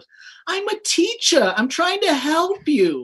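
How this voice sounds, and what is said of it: Mark Wahlberg impression. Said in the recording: “my one Mark Wahlberg impression I do, is Mark Wahlberg in The Happening”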